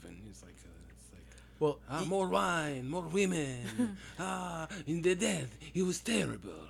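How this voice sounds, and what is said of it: Bad put-on Spanish accent. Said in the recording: “I'm doing a horrible Spanish accent for French”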